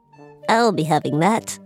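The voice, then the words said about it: Fairy-like lady goblin voice. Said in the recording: “What's your lady gob voice? ... that's like a more fairy goblin”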